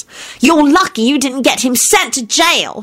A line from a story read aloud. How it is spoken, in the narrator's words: Solange snapped